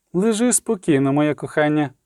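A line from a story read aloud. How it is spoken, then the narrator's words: Gentle, tender. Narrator (Ukrainian): лагідно промовила Єнефер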